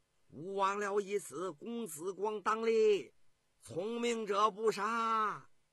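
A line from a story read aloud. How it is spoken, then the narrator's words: Loud shout. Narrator (Chinese): 公子光 高声叫道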